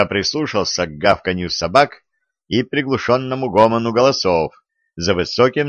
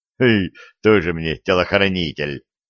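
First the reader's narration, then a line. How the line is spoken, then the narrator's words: Angry grumble. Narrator (Russian): сердито пробурчал Виталий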